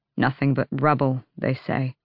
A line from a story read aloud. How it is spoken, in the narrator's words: Manon muttered